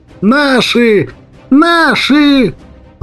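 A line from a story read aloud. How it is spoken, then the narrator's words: Joyful childlike yell. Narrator (Russian): Заорал радостно, окончательно впавший в детство ФСБшник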